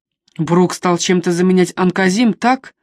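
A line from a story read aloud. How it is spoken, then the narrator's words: Plain. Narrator (Russian): спросил Сент-Джеймс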